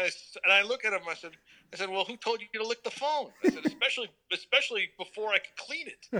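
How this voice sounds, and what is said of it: Usual voice. Nothing is said of it.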